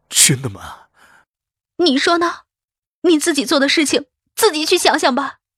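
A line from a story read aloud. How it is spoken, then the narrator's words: Trembling question. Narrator (Chinese): 肖冰的声音颤抖着问道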